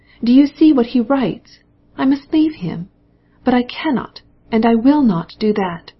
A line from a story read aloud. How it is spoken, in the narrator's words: cried